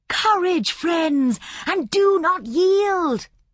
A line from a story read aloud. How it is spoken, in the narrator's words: she cried